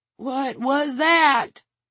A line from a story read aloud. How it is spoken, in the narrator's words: Red shouted in a cracked voice